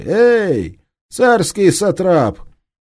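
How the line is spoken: Rude shout. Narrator (Russian): Напротив Екатерининского института его грубо окрикнули

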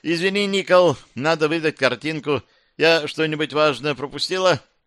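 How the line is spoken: Friendly call. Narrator (Russian): Талья нацепив приветливую улыбку, крикнула

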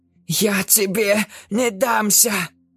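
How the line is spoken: Breathless, fighting nausea. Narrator (Russian): выдохнула Джекаара, борясь с дурнотой

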